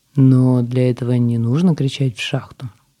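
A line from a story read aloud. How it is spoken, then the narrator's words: Calm. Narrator (Russian): спокойно сказал Алик, хотя в его глазах уже играли веселые искорки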